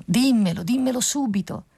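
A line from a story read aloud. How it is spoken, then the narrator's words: Nightingale shouting louder. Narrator (Italian): gridò più forte l'usignolo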